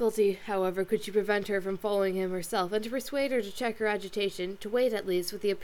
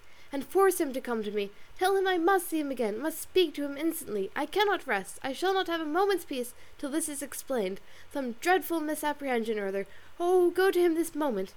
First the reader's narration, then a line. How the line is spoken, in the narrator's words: she cried, as soon as she could speak